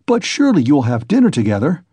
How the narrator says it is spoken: cried Razumihin, looking in surprise

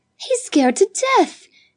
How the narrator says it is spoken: exclaimed Judith

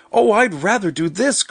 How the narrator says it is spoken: cried Marguerite

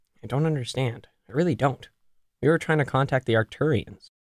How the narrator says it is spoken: Ryan mumbled, taking the stairs two at a time

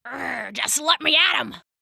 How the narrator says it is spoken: Rambo growled

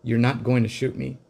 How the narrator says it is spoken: said, far more calmly than I felt

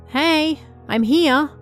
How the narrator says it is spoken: called out in a loud voice

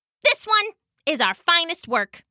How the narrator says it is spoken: Broker said

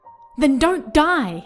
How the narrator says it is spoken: I cried and screamed

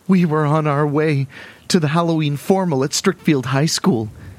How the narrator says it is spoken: the girl cries

